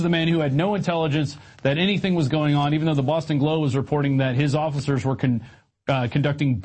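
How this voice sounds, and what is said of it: Usual voice. Nothing is said of it.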